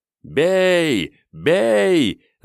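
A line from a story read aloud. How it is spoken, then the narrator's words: Joyful crowd shouting. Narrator (Russian): радостно кричали литовцы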